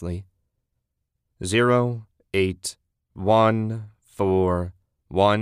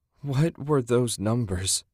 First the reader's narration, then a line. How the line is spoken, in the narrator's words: She moaned